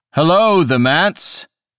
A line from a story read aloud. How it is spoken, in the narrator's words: called out